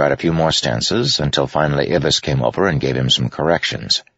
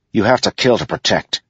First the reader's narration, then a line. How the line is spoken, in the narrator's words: he snapped